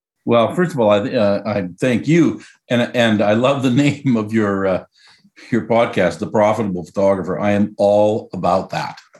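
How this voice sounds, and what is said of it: Slight Canadian accent. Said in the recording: “a leftover Canadian accent ... It's still there.”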